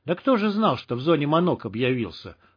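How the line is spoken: Smirking grunt. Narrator (Russian): хмыкнул Чип

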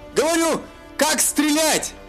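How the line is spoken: Shouted. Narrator (Russian): Прокричал Элендил

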